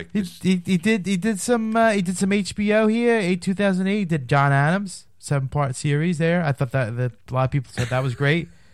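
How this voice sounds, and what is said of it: Funny put-on voice. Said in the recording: “Now he's talking in a funny voice.”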